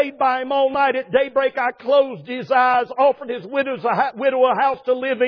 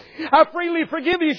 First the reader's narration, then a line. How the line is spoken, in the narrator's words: said